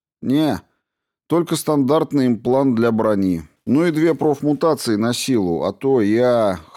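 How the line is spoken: Soldier's snorting chuckle. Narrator (Russian): хмыкнул солдат

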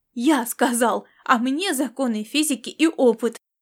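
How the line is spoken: Heated exclamation. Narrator (Russian): запальчиво воскликнул Ласло

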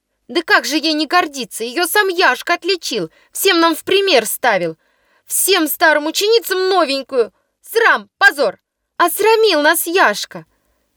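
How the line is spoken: Young girl shouting. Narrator (Russian): кричала хорошенькая, бледная, хрупкая девочка по фамилии Ивина

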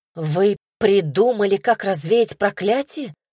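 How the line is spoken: Hopeful exclamation. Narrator (Russian): воскликнула с надеждой

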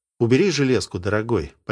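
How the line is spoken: Almost affectionate. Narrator (Russian): почти ласково сказал Сергей

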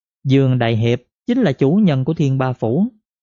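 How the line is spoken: Young woman, smiling. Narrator (Vietnamese): thiếu nữ mỉm cười nói

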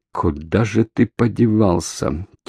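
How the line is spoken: Quiet puzzled mutter. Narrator (Russian): тихо и озадаченно пробормотал охранник

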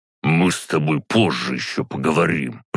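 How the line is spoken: Through gritted teeth. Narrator (Russian): процедил Серега

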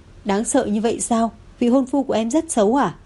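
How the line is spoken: Amused laughing. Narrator (Vietnamese): Thẩm Lệ thấy thế không khỏi bật cười

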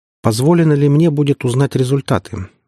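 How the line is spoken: Plain. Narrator (Russian): спросила Светана

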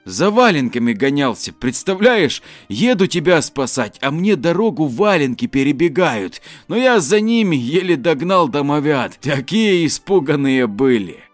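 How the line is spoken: Laughing. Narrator (Russian): засмеявшись, поведал Денис

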